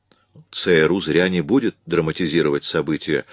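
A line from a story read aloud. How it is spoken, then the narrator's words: Plain. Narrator (Russian): сказал Эллиот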